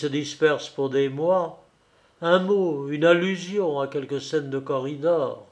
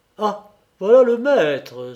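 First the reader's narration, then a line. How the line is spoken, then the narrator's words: Exclaimed. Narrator (French): s'exclama la Mancelin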